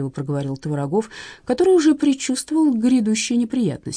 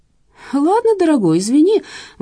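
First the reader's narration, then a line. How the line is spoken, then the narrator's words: Cheerful exclamation. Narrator (Russian): воскликнул неунывающий Бахчинян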